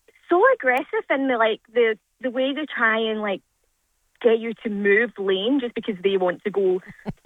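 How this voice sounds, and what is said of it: Scottish accent. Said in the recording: “I love Scottish accent.”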